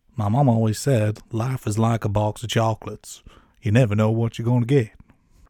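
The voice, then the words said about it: Forrest Gump character impression. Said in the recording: “my Forrest Gump impression ... no, no, very good ... it was not my best”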